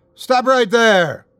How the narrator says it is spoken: John yelled out

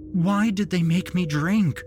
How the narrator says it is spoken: Winnie's mind screamed

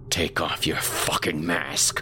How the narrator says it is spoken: I growled

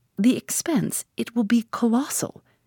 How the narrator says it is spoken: his voice rose

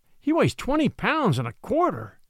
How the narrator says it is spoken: announced Jonas with a gasp, after peering anxiously at the figures

